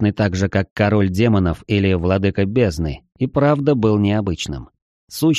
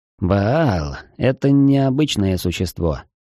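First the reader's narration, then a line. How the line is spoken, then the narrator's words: Sighing. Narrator (Russian): вздохнув, сказал Олаф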